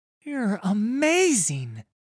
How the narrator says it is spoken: the other boy exclaims

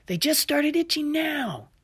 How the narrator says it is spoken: Olivia shouted

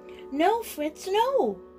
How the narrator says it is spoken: cried, chasing him

